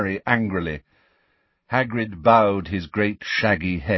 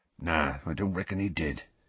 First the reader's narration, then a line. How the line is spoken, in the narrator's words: he said quietly